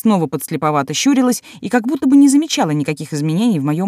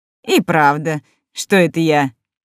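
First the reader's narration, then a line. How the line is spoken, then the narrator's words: Playful laugh. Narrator (Russian): Игриво рассмеялась секретарь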